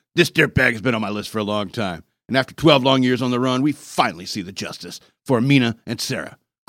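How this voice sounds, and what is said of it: John Walsh impression. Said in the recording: “I'm trying to do a John Walsh voice.”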